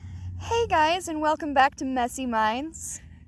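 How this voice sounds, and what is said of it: High-pitched, pleasant customer-service voice. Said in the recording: “the start of your podcast is like my customer service voice ... It's so high pitched. It's so high pitched ... like, hi guys ... it's pleasant sound. It's not like it's, like, Valley Girl high-pitched”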